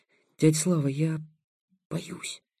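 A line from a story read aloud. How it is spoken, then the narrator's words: Fearful whispered confession. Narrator (Russian): шепотом признался Будимир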